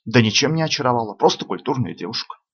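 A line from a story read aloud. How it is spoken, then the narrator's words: Quiet young man. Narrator (Russian): также негромко ответил юноша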